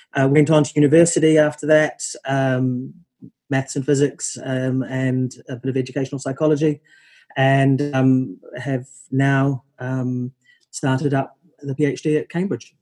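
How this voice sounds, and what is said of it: New Zealand accent. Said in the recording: “I grew up in New Zealand, as the accent probably gives away.”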